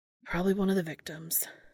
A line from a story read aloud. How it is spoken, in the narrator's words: sighed Sam